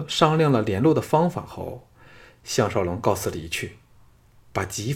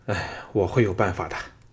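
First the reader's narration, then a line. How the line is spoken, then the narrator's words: Sighing. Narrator (Chinese): 项少龙叹了口气说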